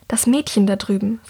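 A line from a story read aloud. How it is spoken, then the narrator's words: Whispered. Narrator (German): flüstert sie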